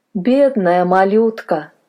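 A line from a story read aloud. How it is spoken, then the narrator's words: Sighing. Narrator (Russian): вздохнула мадам Милли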